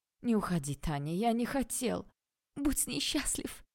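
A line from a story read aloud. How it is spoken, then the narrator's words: Sobbing. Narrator (Russian): всхлипнула я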